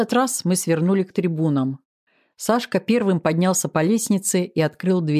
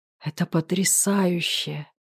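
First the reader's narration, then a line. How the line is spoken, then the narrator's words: Muttered. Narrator (Russian): пробормотал Сашка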